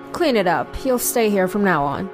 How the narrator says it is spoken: coldly said

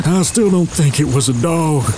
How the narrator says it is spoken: Rick wheezed

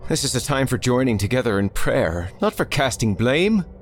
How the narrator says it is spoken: Father Clausen's voice called out

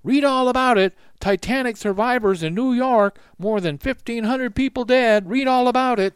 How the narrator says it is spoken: newsboys screamed from every street corner

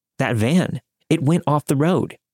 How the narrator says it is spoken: exclaimed

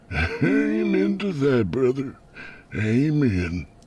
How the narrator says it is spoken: The old man chuckled, said

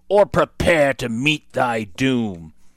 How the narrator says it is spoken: he growled

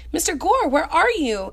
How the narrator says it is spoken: Anna cried

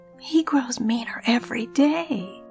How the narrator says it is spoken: Ramona whispers

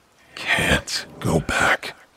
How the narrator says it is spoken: he wheezed

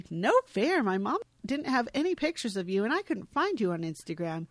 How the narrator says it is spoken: Peter says playfully

